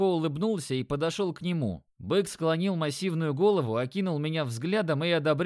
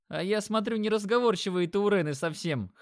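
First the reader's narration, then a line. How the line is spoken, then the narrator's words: Laughing. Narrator (Russian): хохотнул Димон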